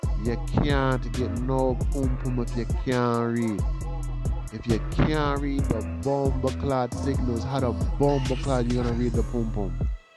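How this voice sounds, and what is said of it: Put-on Jamaican accent. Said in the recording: “Yo, y'all like my Jamaican accent right there?”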